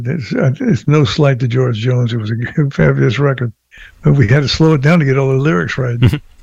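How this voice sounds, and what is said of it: Voice hoarse from a cold. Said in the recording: “Pardon my voice. I got a little cold.”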